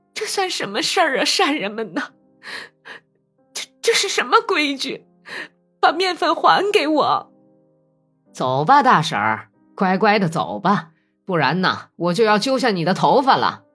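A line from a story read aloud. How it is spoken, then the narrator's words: Pleading wail. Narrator (Chinese): 想博得来磨面粉的人们的同情，他哭喊道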